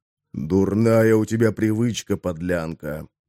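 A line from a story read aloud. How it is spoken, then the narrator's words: Quiet speech. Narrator (Russian): тихо проговорил Бисквит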